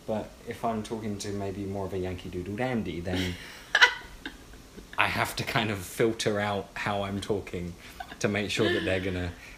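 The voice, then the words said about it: Clear British accent. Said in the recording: “They've heard British ... you have a very, like, clear accent.”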